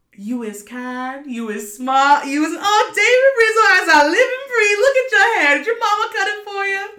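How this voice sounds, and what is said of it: Put-on old-fashioned Deep South accent. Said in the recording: “That's my accent ... So you went like, not only Southern, you went back in time ... You went to like straight Louisiana ... Deep Louisiana ... I think that's a fantastic accent.”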